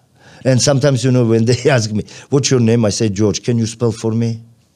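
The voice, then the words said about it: Non-native English accent. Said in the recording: “of course I have a different accent”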